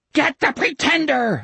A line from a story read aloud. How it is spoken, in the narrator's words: Osmond was shrieking